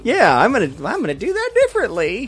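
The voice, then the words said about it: Imitates another person's voice. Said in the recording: “That's my George R. R. Martin impersonation.”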